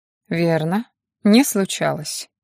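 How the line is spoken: Calm confirmation. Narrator (Russian): спокойно подтвердил Мор, не поддаваясь на провокацию

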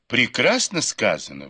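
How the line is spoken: Sudden delighted exclamation. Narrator (Russian): вдруг воскликнула восхищенная Даюй

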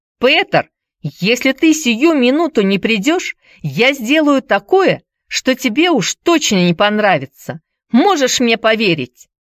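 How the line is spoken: Shouting. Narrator (Russian): кричала Хайди

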